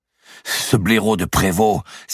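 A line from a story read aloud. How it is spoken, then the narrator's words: Exclaiming. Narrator (French): s'écria Pierre de Cresset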